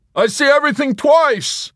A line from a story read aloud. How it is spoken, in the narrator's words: Yossarian ... when he heard the bad news and shouted